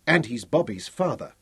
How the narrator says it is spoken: Elizabeth said quickly

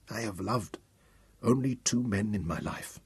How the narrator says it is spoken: murmured

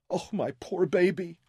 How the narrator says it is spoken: Louisa sobbed

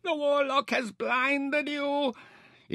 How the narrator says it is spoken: Ishtar howled

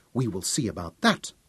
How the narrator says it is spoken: she snapped

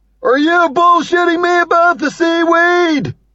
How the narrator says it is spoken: shouted

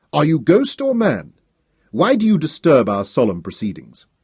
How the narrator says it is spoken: His voice was strong and clear

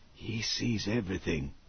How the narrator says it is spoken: Hal murmured

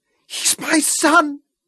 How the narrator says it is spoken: Isabella screamed

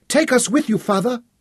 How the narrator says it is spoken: Zama pleaded

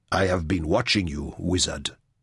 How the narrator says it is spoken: Basma said coldly

